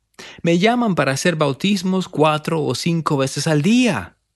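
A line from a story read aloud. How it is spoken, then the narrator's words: Exclaiming. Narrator (Spanish): exclamó él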